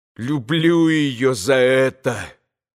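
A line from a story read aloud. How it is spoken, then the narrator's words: Distorted furious voice. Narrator (Russian): искаженным голосом прибавила Катя, и глаза ее сверкнули дикою злобой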